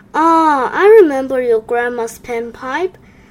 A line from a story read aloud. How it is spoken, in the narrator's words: sighed the neighbor